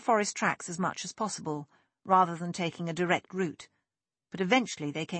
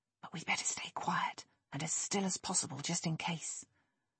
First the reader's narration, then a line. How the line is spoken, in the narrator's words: Nick whispered